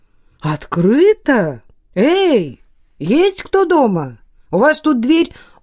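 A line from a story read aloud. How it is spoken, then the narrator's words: Surprised exclamation. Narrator (Russian): Стефан удивленно воскликнул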